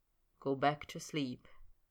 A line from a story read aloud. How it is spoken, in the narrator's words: Snape said quietly